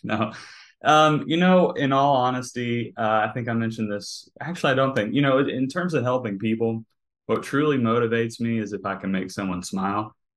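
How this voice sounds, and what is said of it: Southern American accent. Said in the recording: “some people have told me it's the Southern accent”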